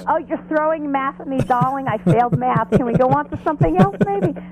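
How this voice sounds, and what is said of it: Put-on Jewish accent. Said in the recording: “That's my Jewish impression.”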